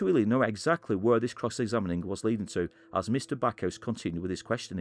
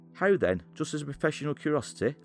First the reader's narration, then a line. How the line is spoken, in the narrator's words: asked Mr